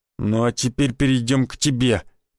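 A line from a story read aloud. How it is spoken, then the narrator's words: Menacing hiss. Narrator (Russian): прошипел Никитич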